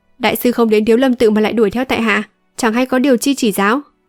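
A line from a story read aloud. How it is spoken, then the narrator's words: Cold question. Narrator (Vietnamese): Âu Dương Thu lạnh lùng hỏi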